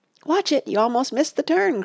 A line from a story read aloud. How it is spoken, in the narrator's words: cried Oliver